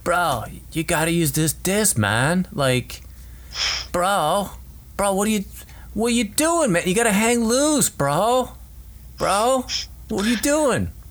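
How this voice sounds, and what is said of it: Impression of a laid-back bro. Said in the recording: “Let me do an impression of your buddy from what I know, and all I know is that he plays frisbee golf.”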